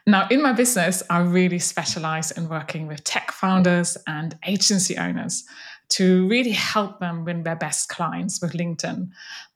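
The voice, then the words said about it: Slight German accent. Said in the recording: “my slight accent ... originally from Germany”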